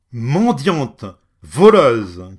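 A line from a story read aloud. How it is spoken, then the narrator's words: Shouted. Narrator (French): cria-t-il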